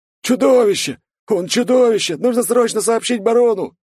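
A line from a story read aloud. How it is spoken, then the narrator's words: Screams fading into death rattles. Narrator (Russian): послышались крики, которые переходили в предсмертные хрипы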